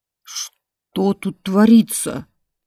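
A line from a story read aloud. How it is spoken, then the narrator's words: Hoarse bass question. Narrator (Russian): спросила корыто хриплым басом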